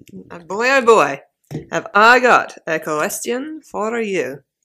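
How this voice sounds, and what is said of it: Vaguely Russian witch character accent. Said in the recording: “you're doing a bloody accent... It's kind of Russian, kind of not... I was just going for the Grand High Witch”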